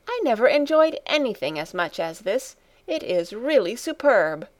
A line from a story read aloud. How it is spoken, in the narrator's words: cried Grandmamma two or three times over